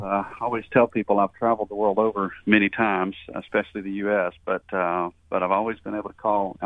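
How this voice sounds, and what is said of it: Southern US accent. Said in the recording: “a southern accent”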